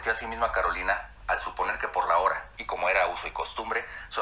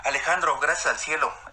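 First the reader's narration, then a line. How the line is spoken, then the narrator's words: Relieved young woman exclaiming. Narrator (Spanish): exclamó la reconfortada joven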